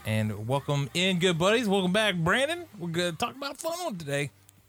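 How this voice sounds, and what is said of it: Put-on affected accent voice. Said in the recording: “What is this voice you're affecting? ... is this accent?”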